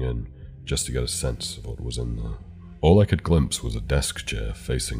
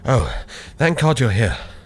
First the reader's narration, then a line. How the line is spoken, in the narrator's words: said, panting